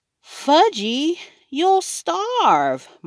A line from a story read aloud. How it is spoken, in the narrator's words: my mother cried